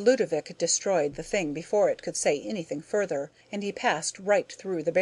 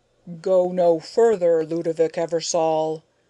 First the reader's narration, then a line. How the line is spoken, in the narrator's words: a mighty voice roared from within